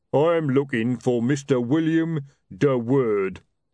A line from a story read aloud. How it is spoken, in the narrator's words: rumbled a voice above them